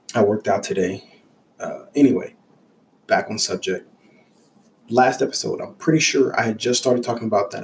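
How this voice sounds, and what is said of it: Scratchy voice from a cold. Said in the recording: “I have a cold. So if I sound a little weird, that's why ... my voice sounds real weird. Throat is a little scratchy”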